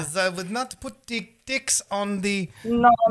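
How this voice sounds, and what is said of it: Bad put-on German accent. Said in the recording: “I do a terrible German accent ... that's really like, bad. That's really bad ... a German bad impersonation”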